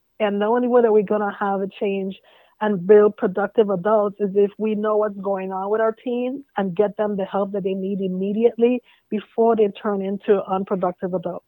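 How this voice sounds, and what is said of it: Virgin Islands Caribbean accent. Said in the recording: “Oh, I hear an accent. Is that a Georgia accent? ... That's that Virgin Island accent.”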